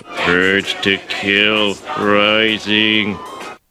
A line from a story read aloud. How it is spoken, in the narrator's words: Homer muttering to himself